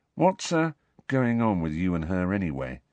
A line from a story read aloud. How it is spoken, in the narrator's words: Ron asked quietly